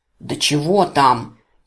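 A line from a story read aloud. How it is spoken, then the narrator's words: Impatient bark close by. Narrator (Russian): Потеряв терпение, рявкнул мне на ухо одноглазый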